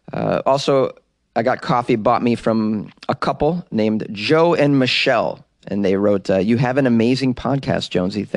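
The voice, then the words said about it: Boston accent. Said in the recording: “that Boston accent ... She loves my Boston accent. ... people can't understand what I'm saying.”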